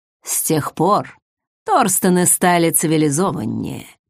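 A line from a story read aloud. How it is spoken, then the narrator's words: Purring close to ear. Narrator (Russian): щекоча дыханием, промурлыкал он практически мне на ухо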